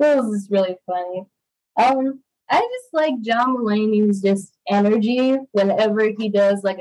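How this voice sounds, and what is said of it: Usual voice. Nothing is said of it.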